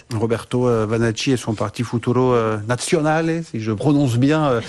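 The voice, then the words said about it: Italian accent on names. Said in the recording (French): “avec l'accent italien ... très bel accent.”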